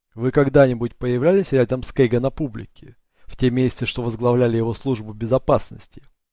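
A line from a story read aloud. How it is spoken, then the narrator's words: Plain. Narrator (Russian): спросил Ник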